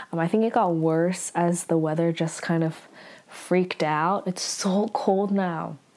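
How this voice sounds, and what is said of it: Voice strained from a cold. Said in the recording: “my voice is a little bit crazy because I am still getting over a cold”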